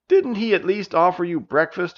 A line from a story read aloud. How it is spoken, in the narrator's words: May angrily asked